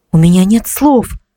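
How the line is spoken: Breathless. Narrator (Russian): выдохнула я

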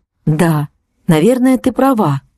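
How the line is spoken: Sigh. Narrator (Russian): вздохнула я

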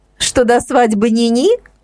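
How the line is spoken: Joking interjection. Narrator (Russian): вовремя вставила шутку Инна

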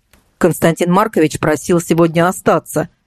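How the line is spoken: Driver, official tone. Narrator (Russian): официальным тоном сообщил водитель

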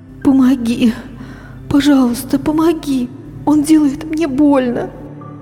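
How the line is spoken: Trembling whisper. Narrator (Russian): дрожащим голосом шептала она

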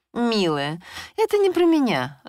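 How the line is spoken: Lively laughing, female friend. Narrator (Russian): живо рассмеялась подруга

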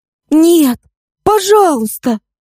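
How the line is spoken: Fervent pleading. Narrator (Russian): с жаром взмолилась девушка

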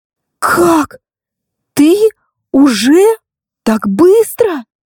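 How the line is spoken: Incredulous breathless exhale. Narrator (Russian): выдохнула она, не веря услышанному

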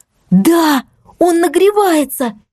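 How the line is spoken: Excited near-shout while moving. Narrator (Russian): Я практически кричала на ходу, воодушевленная наличием такого чудесного помощника

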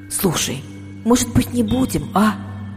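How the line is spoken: Hopeless whisper. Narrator (Russian): шепнула я Лине без особой надежды

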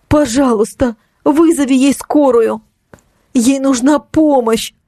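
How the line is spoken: Pleading. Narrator (Russian): взмолилась я

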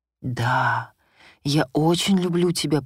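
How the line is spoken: Passionate whisper. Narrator (Russian): прошептал он с жаром

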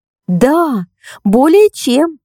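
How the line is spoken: Exclaiming petite young woman. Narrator (Russian): воскликнула миниатюрная девушка

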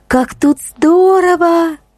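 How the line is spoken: Happy exclamation. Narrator (Russian): воскликнула Ксюша, и в ее глазах загорелись счастливые искорки

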